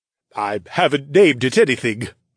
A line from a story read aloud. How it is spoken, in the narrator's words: Forsyth answered